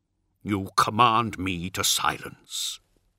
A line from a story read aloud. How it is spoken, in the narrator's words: growled Amit